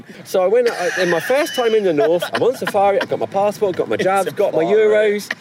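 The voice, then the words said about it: Put-on Derby English accent. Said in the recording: “I love the Derby accent.”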